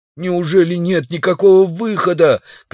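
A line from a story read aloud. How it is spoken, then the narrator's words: Shouting while struggling. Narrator (Russian): кричал удалов, извиваясь под молодцами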